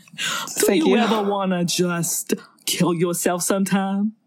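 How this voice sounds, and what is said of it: New York street-guy impression. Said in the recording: “I love your accent. ... You sound like John Mulaney impersonating a guy that is walking on the streets of New York ... No, that's Christopher Walken.”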